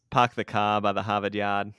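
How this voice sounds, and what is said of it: Poor put-on Boston accent. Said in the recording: “Wicked hard for those Bostonians. ... Terrible. Better than mine, but also terrible. ... use that accent ... It's not great to start with”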